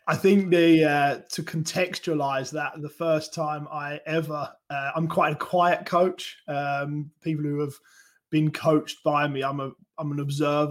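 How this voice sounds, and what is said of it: Speaks with a noticeable accent. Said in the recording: “I hope you don't mind my accent too much. ... We love the accents.”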